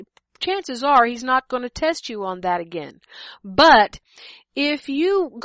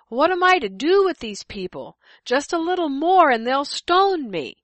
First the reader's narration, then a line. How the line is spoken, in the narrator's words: Moses cried out to the Lord